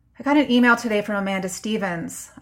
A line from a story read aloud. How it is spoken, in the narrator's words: I cut in, my voice sharp like a dart